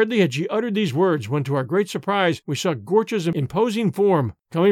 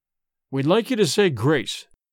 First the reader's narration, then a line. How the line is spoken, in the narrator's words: Dorda said in a firm voice, though his face had lost its color